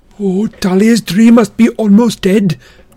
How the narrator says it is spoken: Grover wailed

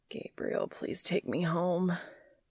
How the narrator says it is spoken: he groans

